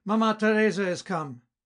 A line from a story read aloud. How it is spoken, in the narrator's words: Felix, still at some distance, shouted out